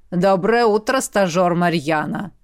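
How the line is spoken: Deep bass. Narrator (Russian): пробасил зеленый охранник

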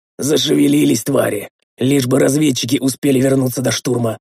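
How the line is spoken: Hoarse, cold-roughened croak. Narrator (Russian): простуженным голосом прохрипел

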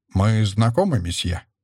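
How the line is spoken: Cold question. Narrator (Russian): холодно спросил меня

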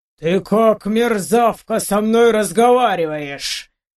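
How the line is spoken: Sudden thundering from behind. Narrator (Russian): Вдруг прогремело за моей спиной

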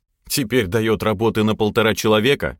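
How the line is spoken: Wry snort. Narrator (Russian): хмыкнул я

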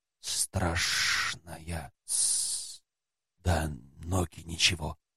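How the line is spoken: Whisper. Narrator (Russian): полузмей прошептал

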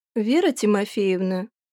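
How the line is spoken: Soft, almost sympathetic. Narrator (Russian): ее голос звучит мягко, почти сочувственно

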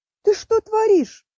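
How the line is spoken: Screamed. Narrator (Russian): завопила я

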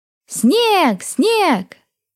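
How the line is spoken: Delighted little girl shouting. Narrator (Russian): кричала восторженная девчушка

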